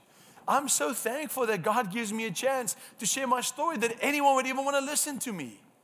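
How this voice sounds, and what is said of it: Speaks with a noticeable accent. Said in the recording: “My accent gets irritating after a while. It's only cool for one session”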